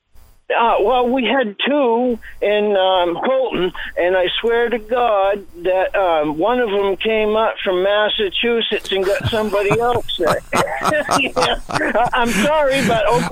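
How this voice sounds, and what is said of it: Down East Maine accent. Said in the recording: “You got a great down east accent. You don't hear that accent much anymore ... I love hearing that accent”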